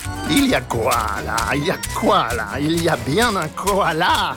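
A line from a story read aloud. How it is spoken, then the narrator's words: Sneering. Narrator (French): ricanait-il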